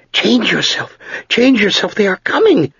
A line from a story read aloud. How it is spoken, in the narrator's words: Sered shrieked